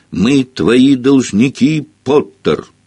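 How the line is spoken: Loud shouting schoolchildren. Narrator (Russian): школьники из Слазерин громко выкрикивать

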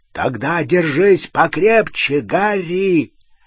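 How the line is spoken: Deafening hoarse roar. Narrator (Russian): Раздался оглушительный, хриплый рев

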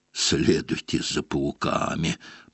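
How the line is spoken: Hoarse rasp. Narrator (Russian): прохрипел он

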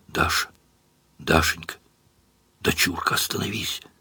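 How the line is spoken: Whispered. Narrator (Russian): Лишь шептал

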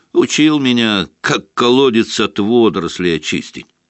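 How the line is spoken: Grumbling. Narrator (Russian): проворчал Хагрид

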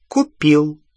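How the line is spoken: Authoritative tone. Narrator (Russian): авторитетным тоном ответил Ксенофилиус

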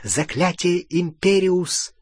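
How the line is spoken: Whisper. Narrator (Russian): прошептал

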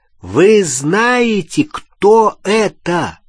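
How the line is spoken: Loud and deliberate. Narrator (Russian): повторил он очень громко и раздельно

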